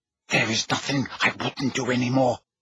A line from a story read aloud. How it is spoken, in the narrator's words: Narcissa breathed, a note of hysteria in her voice